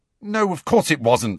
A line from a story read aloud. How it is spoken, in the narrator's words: said Harry impatiently